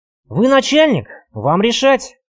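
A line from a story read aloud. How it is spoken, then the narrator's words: Grumble. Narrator (Russian): проворчал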